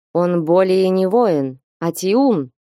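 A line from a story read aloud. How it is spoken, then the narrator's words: Angry mutter. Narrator (Russian): сердито пробормотал Ольг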